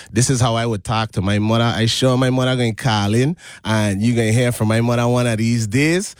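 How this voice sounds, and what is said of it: Caribbean U.S. Virgin Islands accent. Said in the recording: “I was born and raised in St. Thomas, the U.S. Virgin Islands... So I also have an accent. I talk like this normally... if you hear an accent slip in and out... the inner Caribbean man trying to jump out”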